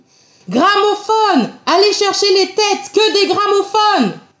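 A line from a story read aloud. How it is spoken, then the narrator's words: Shout breaking into dull moan. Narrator (French): sa vocifération libératrice se brisa en une plainte sourde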